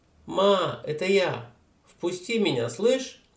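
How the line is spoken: Young woman shouting. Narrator (Russian): Темнокожая девушка крикнула

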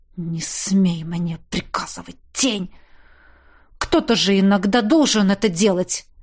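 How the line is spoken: Hissing. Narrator (Russian): Прошипел я

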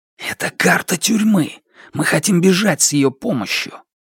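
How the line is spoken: Urgent secretive hiss. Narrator (Russian): Как только тень охранника мелькнула в дверях, Хан прошипел

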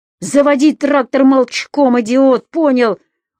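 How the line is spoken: Shouting. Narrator (Russian): уже крикнул на него Анатолий

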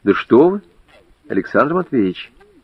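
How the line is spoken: Plain. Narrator (Russian): сказала Людмила

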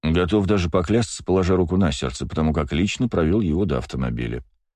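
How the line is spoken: Calm reply. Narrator (Russian): спокойно ответил мужчина

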